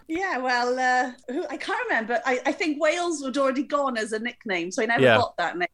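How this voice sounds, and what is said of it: Welsh accent. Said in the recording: “that Welsh accent”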